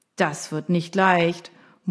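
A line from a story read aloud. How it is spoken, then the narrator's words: Muttered from audience. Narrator (German): murmelte jemand im Publikum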